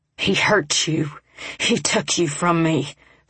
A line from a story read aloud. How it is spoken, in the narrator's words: Flame snarled